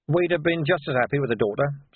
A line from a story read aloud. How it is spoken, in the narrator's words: said Vimes quickly